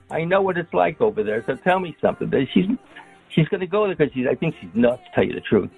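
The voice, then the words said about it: New York accent. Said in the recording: “she's from the Bronx... She's from Queens... I'm from there. I know. Listen to my accent.”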